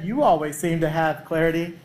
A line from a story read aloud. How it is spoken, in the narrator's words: Mother Teresa laughed and said,